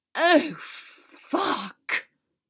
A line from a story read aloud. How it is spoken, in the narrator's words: Draco breathed